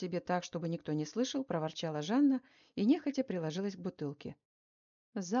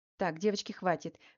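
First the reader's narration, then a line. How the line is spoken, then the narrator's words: Sharp shout. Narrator (Russian): прикрикнула на них Марина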